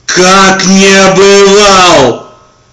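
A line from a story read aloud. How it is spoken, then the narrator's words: Shouting. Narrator (Russian): закричал я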